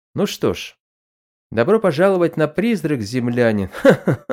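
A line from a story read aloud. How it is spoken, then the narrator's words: Chuckling joke. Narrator (Russian): Он вновь хохотнул и пошутил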